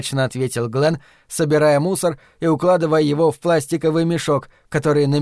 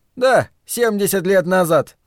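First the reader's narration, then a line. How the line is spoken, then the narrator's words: Adding, then laughing. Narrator (Russian): добавил Ларри и рассмеялся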